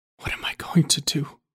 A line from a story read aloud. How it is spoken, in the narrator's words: he whispered to no one